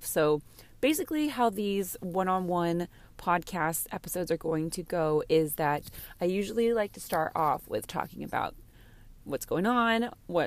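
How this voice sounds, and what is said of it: Raspy, hoarse voice. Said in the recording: “I do sound a little bit of raspy because last night was so much fun ... my voice is a little hoarse”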